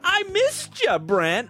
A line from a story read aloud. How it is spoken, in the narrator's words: Ronald said with his signature kid-friendly laugh